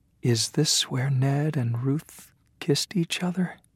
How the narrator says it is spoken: Maddie whispered

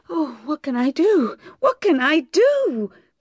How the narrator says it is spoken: cried Bathsheba

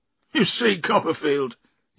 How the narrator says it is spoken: he said miserably

